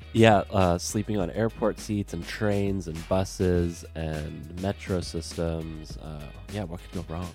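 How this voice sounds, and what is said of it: Sick, unwell-sounding voice. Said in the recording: “I'm your sick boy ... you sound terrible”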